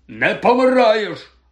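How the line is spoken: Pale, shaken bark. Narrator (Ukrainian): гаркнув сполотнілий Гегріт

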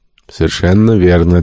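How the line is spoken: Plain answer. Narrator (Russian): ответил Шандон

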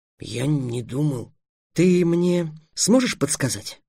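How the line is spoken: Plain question. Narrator (Russian): спросил Трикс

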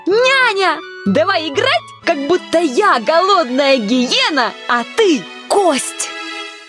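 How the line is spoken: Shouted right into ear. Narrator (Russian): крикнув ей прямо в ухо

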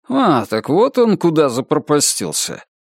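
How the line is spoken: Surprised hmph. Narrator (Russian): С удивлением хмыкнул, словно говоря

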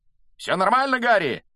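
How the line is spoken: Shouting in flight. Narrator (Russian): на лету прокричал Фред

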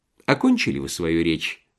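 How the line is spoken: Calm question. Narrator (Russian): спокойно спросил Швейк

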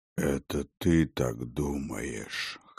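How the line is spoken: Hoarse. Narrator (Russian): хрипло сказал Ястир

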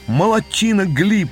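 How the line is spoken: Shouted. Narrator (Russian): закричал я

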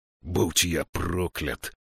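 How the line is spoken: Growl. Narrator (Russian): прорычал Слудик

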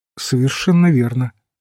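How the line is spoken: Calm priest. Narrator (Russian): спокойно сказал священник

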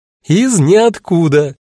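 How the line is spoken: Triumphant laughing woman. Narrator (Russian): торжествующе рассмеялась она

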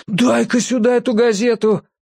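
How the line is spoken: Exclaiming. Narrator (Russian): воскликнул Беловолосый

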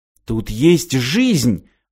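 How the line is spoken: Exclaiming. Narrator (Russian): воскликнул Мартин

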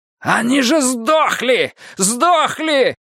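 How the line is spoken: Yelling. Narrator (Russian): заорал он

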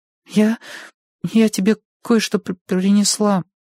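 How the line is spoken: Timid babbling. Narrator (Russian): пролепетала Гарит

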